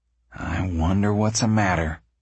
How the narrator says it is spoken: Tom said uneasily

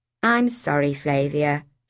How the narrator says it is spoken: she said

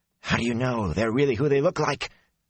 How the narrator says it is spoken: he said hoarsely

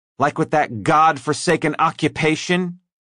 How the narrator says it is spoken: she asked loudly enough to be heard beyond their table

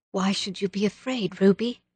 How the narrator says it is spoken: asked Anne quietly

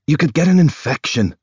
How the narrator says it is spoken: he snaps

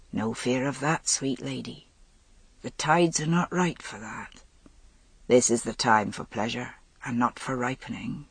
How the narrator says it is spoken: he said softly

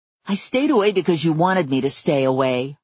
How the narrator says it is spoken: I growled at him

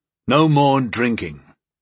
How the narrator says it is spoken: Gol declared firmly

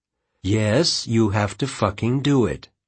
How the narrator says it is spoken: she said evenly

